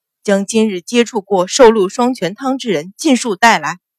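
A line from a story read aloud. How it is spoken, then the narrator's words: Loud, enraged. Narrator (Chinese): 狠狠咬牙，额角青筋崩现，大声道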